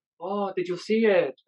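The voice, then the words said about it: Badly done put-on accent. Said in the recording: “That's a horrible accent.”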